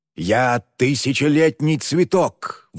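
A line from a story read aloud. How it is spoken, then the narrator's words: Howling. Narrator (Russian): взвыл мертвец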